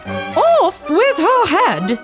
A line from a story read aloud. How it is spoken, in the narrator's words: shouted the Queen